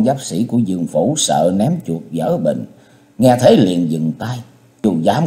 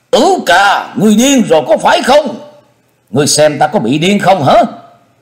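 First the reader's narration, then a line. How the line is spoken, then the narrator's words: Trembling with anger, stern. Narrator (Vietnamese): Ninh Dương tức giận đến toàn thân phát run, nghiêm nghị kêu lên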